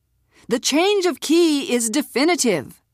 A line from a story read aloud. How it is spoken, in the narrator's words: the man said, a little too loudly